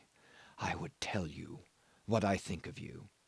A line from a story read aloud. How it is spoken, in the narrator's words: he said, very softly